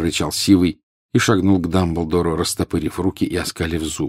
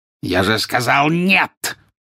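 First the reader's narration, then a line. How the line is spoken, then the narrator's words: Harsh bark. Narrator (Russian): рявкнул жестоколицей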